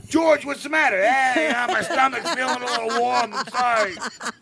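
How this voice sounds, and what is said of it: New York accent. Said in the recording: “I liked the New York accent.”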